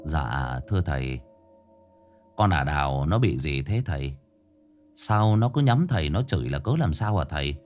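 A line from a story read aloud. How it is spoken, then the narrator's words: Quiet question. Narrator (Vietnamese): Cậu Hàn nhỏ giọng hỏi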